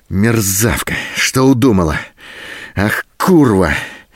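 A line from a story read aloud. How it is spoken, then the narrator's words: Hoarse, surging rage. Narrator (Russian): В то остывающем, то снова вспыхивающем бешенстве хрипел Голубин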